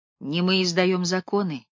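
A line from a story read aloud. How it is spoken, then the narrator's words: Gentle speech. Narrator (Russian): мягко сказал Бирнс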